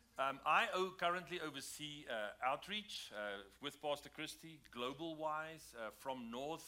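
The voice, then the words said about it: South African accent. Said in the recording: “That's where our accents are from ... it's a little bit more south from South Africa”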